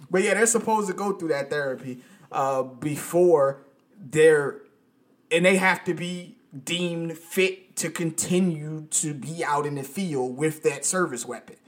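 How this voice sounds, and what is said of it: Speaks with a noticeable accent. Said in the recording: “It sounds like you're saying canceled. I know your accent. ... My accent, yeah. ... It's my accent, people. It's my accent.”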